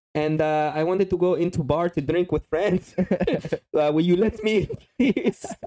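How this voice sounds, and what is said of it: Slight put-on foreign accent. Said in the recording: “Just speak with a little... with a little accent.”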